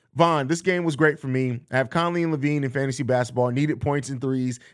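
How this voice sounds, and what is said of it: Strained, fading hoarse voice. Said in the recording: “my voice is going out. I screamed so much in the last 40 minutes”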